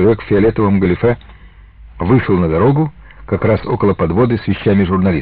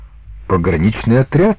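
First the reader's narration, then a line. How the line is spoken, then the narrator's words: Confused answer. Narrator (Russian): растерянно ответил журналист в серых гетрах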